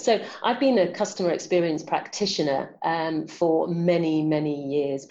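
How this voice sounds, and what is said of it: London accent. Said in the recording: “You're in London right now. Okay. Cause we hear the accent”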